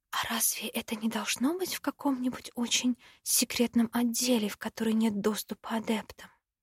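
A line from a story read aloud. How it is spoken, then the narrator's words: Whispering. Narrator (Russian): Шепнула Ростину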